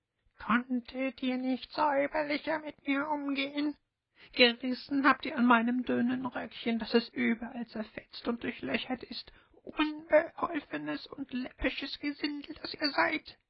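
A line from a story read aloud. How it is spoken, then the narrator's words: Shrieking, shrill dwarf. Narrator (German): der Zwerg sich von dem ersten Schrecken erholt hatte, schrie er mit einer kreischenden Stimme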